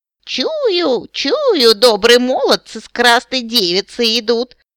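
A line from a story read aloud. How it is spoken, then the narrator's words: Creaky old woman's voice. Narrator (Russian): проскрипела старая корга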